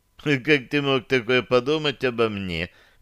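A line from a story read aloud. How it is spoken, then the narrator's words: Melodious laugh. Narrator (Russian): мелодично рассмеялась Таша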